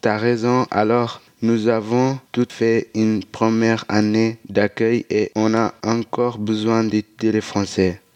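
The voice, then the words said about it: Non-native French accent. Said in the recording (French): “on a un drôle d'accent ... nous avons encore un joli accent”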